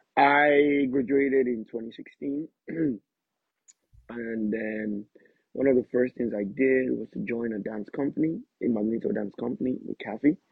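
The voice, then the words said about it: Irish-influenced accent. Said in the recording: “tease us with your Irish accent a little bit ... I'm going to speak with the accent that I speak with here in Ireland ... It's not more the Nigerian way”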